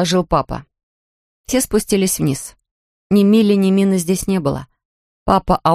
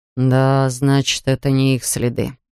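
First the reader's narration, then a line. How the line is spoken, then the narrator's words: Sighing. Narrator (Russian): вздохнул папа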